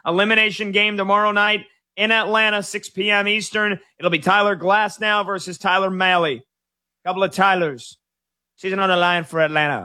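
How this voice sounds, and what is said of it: Imitates a sports radio host's voice. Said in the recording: “I just slipped into a Chris Mad Dog Russo impersonation”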